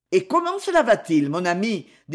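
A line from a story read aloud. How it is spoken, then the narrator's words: Cheerful, soldier. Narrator (French): dit gaiement le militaire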